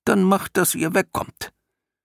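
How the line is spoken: Deep rumbling organ voice. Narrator (German): brummte die Orgel

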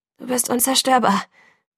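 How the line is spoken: Breathless murmur. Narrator (German): murmelte atemlos

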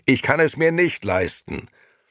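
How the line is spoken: Desperate scream. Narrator (German): schrie Gigi verzweifelt

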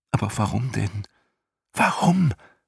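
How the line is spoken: Boy's pleading whisper. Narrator (German): flüsterte der Junge flehend

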